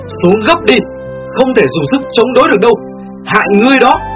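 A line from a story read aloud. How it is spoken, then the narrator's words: Loud shout. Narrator (Vietnamese): Tiểu Phi hét to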